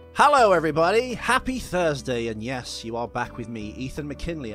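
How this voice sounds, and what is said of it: Announcer-style radio voice. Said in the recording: “My radio voice. Do you like it?”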